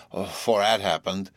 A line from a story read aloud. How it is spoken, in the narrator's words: continued Tom thickly